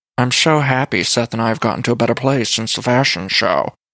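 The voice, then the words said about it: Imitates another person's voice. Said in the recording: “my Meredith voice”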